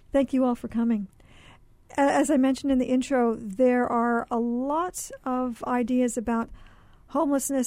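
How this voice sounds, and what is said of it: Slightly hoarse, fading voice. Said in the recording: “I'm losing my voice just a little bit”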